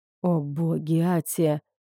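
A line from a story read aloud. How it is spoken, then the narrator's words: Breathless exclamation. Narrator (Russian): выдохнул я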